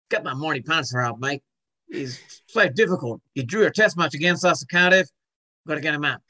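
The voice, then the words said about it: Put-on Australian accent. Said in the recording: “what about an Aussie accent?”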